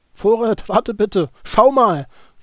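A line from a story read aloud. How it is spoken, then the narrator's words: Called back. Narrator (German): rief zurück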